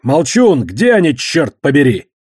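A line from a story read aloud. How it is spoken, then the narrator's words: Roared. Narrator (Russian): прореветь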